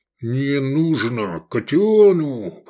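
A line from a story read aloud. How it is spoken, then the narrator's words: Barely restrained growl. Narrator (Russian): прорычал Киклоп, еле сдерживаясь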